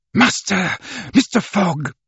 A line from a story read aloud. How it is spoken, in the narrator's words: he exclaimed